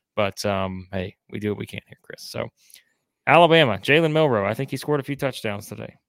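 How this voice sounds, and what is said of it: Hoarse voice. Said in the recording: “you have to hear my hoarse-type voice”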